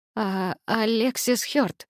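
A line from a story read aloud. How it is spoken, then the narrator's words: Uncertain reply. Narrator (Russian): неуверенно ответила я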